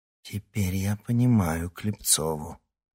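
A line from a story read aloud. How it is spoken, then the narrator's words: Low undertone. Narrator (Russian): вполголоса произнесла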